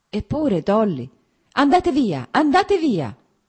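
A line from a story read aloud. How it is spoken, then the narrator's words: Anguished pained cry. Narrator (Italian): gridò senza guardarlo, come se questo grido fosse provocato da un male fisico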